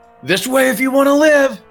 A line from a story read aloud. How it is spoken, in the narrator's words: he's going to shout to the Zhentarim